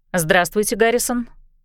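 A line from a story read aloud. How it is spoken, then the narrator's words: Calm. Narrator (Russian): спокойно сказала Энджи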